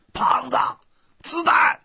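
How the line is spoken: Loud shout. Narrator (Chinese): 对胖子大声喊

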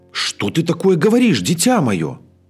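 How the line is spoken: Old woman exclaiming. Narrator (Russian): воскликнула старуха

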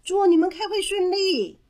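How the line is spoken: Loud group shout. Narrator (Chinese): 小熊们大声的喊着

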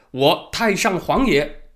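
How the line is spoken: Loud, heroic. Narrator (Chinese): 明英宗第一次开挂，英雄气概上身，大声说

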